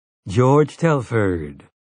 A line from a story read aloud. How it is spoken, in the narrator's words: he said